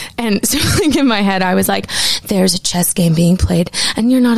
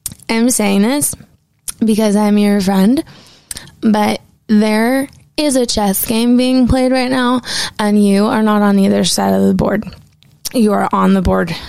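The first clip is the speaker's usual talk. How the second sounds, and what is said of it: Drunken-sounding voice. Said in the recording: “this is my impression of me drunk saying this”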